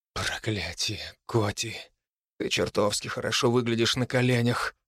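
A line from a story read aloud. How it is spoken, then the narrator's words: Hoarse. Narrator (Russian): хриплю я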